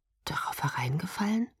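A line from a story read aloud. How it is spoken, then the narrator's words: Almost inaudible murmur. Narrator (German): murmelte fast unhörbar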